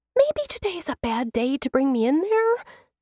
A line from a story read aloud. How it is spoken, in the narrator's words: she squeaks